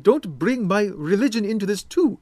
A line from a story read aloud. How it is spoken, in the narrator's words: Mohammed begged